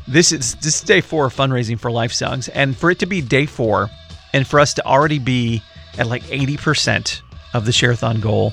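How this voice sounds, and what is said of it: Hoarse, strained voice. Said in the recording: “losing my voice here. Allergies are going crazy.”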